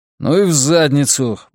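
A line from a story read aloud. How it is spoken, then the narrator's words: Muttering. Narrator (Russian): буркнул я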